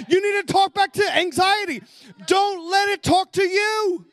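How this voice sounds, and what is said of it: Excited yelling. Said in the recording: “Are your ears okay? Sorry, I'm yelling. That happens sometimes when I get a little bit excited.”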